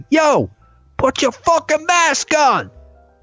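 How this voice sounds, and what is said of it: Aggressive shouting, New York accent. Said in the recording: “New Yorkers literally fucking shouting at New Yorkers from across the street ... going aggressively ... it's kind of the New York accent. It's intimidating.”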